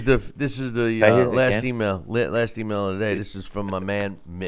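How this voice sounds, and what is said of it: Usual voice. Nothing is said of it.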